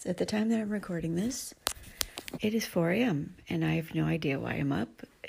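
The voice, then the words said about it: Voice sounding a little funny. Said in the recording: “my voice sounding a little funny that it is 4 o'clock in the morning”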